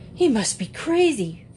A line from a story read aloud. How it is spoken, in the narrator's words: Frank exclaimed angrily